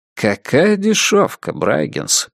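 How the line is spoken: Muttered. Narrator (Russian): пробормотал Масгроув

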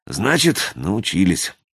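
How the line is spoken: Sighing. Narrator (Russian): вздохнул Веригин

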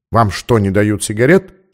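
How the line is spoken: Plain. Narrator (Russian): спросил он

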